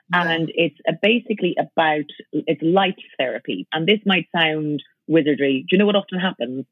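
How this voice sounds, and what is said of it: Irish accent. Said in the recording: “I've got an accent, an Irish accent.”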